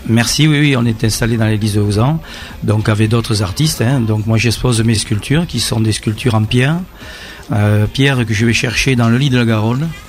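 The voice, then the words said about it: Slight regional French accent. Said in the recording (French): “avec un petit accent”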